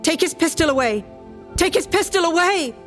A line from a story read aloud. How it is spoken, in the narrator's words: I'm shouting now